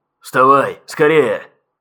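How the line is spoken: Rough bark over radio. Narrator (Russian): рявкнул в эфире грубый голос легированного

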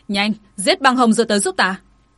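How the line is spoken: Angry shout. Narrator (Vietnamese): giận dữ hét lên với ám ảnh vệ

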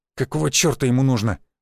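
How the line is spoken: Indignant mutter. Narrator (Russian): возмущенно буркнул Мышкин

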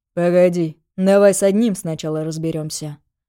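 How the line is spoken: Calm. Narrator (Russian): спокойно сказал Григорий

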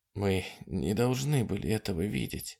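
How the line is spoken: Whisper. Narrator (Russian): прошептала она

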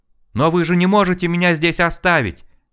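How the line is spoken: Desperate shout after. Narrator (Russian): Отчаянно закричал нам вслед мужик

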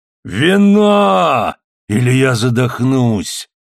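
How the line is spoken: Roaring. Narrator (Russian): взревел Гонзалес

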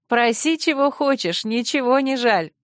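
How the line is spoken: Laughing. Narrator (Russian): засмеялась

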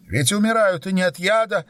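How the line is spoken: Shouting. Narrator (Russian): кричала Анна

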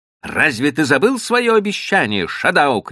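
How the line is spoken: Shouted. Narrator (Russian): крикнул он мне

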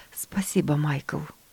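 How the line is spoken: Quiet. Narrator (Russian): тихо ответила мама

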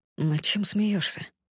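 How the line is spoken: Whispered question. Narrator (Russian): Он спрашивает шепотом

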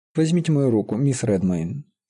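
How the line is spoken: Very casual, relaxed. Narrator (Russian): сказал он самым непринужденным тоном

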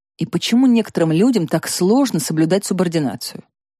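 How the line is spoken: Whisper. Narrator (Russian): прошептал

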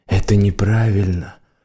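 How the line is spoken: Whispered. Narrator (Russian): шепнуло оно

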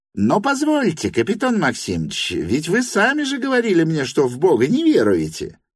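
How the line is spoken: Squeaky, from afar. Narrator (Russian): пропищал с конца стола Липутин

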